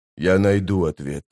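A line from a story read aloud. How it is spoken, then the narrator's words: Whisper. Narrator (Russian): прошептал быстрый Бен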